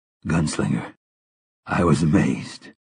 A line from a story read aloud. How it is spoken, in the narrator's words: Roland said in a husky, trembling voice